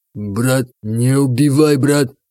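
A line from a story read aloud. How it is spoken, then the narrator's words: Strained, bewildered plea. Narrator (Russian): Выдавил кавказец, не понимая, что происходит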